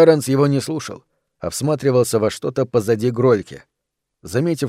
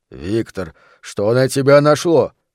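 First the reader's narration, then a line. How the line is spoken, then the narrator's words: Shouting after someone. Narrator (Russian): кричал ему в спину Грольке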